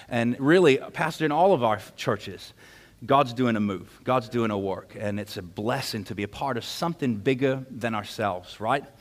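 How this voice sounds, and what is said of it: English accent. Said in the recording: “We had to get the England thing out of the way because I know some of you couldn't get past anything I was saying until you figured out what that accent was.”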